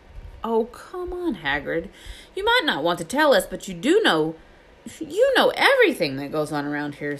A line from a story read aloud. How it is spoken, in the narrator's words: said Hermione in a warm, flattering voice